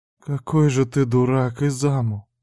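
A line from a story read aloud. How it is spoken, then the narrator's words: Little sister whispering. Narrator (Russian): прошептала сестренка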